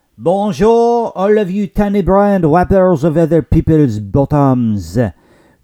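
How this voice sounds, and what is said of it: Put-on French accent. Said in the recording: “What's up with the French accent today?”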